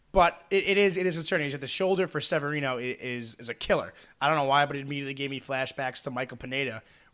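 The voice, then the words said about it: Raspy, strained voice. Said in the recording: “my voice is a little raspy ... feels like I can barely talk after last weekend”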